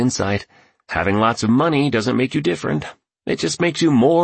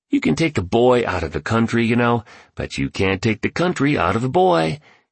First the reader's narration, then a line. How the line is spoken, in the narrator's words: he added, expressing an enthusiasm that was contagious